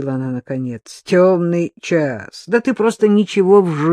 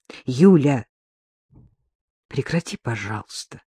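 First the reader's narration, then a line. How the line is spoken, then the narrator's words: Quiet. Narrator (Russian): негромко сказала Вероника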